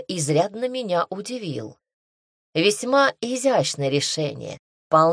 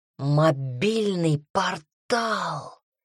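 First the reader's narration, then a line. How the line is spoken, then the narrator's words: Ecstatic moaning. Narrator (Russian): стонал Дамьен в экстазе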